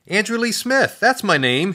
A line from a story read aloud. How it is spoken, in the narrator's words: yelled out